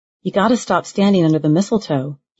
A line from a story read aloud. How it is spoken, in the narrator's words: he said softly